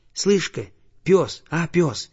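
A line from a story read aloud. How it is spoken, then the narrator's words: Quiet call. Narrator (Russian): тихонько позвал он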